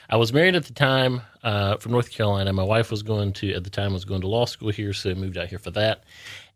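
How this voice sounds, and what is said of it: Southern drawl. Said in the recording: “that Southern drawl”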